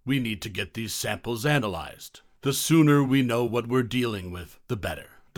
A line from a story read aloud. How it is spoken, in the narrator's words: In a sober tone far removed from his earlier enthusiasm, said